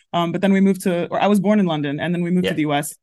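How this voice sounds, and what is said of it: Mild American accent. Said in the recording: “which is why I have this accent ... because of this accent, people peg me as American straight away ... it's not strong. I don't think. American tinge. I don't think it's like that strong.”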